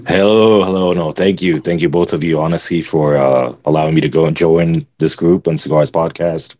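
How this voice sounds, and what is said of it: Deep, smooth late-night radio voice. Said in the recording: “has a very sexy voice ... he just has those sexy, like late night FM, you know, radio host”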